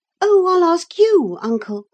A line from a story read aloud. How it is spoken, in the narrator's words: cried Miss Cathy